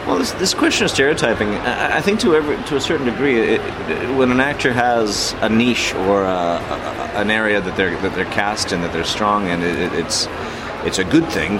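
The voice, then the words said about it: Czech accent. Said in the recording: “your Czech background with your accent”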